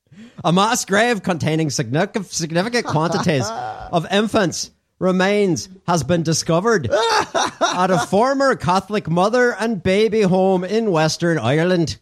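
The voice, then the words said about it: Put-on accent reading news. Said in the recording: “the whole story in that accent”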